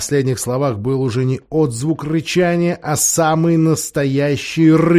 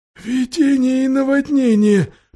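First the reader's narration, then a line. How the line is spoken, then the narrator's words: Nearly voiceless moan. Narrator (Russian): почти без голоса простонал Трам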